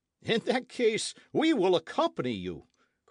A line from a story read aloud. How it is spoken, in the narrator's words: cried the others